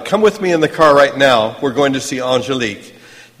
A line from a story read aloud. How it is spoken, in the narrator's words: He shouted